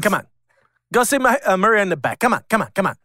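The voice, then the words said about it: Imitates another person's accented cadence. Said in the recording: “the best accent... And the cadence. He's got a cadence... Do his voice.”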